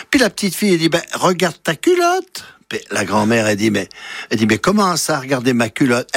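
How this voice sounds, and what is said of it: Put-on Swiss Vaud accent. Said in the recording (French): “Ça se passe dans le canton de Vaud, vous avez entendu l'accent.”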